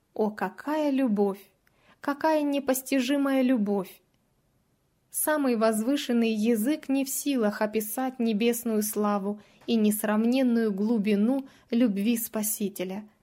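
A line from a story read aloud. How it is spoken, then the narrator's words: Rapturous exclamation. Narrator (Russian): Унесенная ввысь, воскликнула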